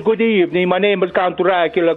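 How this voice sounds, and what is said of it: Bela Lugosi Hungarian Dracula accent impression. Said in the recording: “I got Bela Lugosi. He was from Hungary, and he had the accent. ... An accent on top of an accent.”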